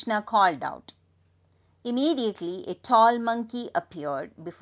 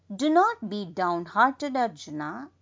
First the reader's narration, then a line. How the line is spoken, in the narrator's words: said